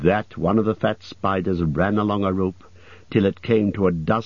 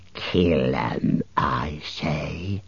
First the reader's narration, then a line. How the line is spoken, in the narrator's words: hissed a fourth